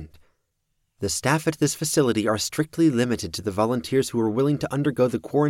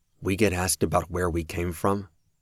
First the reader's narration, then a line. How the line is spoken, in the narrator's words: Kraus murmured to the others